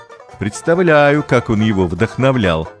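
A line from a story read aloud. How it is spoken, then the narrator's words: Laughing, father. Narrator (Russian): засмеялся папа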